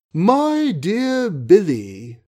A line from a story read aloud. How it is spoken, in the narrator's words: she cooed, with asthmatic gentleness